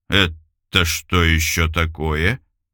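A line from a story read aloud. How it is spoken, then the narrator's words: Incredulous drawl. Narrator (Russian): Недоверчиво протянул Илюшин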